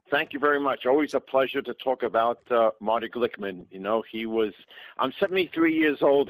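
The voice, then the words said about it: New York accent. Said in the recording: “I sound like him. I have a New York accent”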